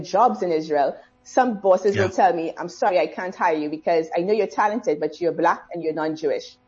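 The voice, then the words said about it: Caribbean accent. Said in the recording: “I'm loving her accent. So your Caribbean accent is going down very well here in South Africa.”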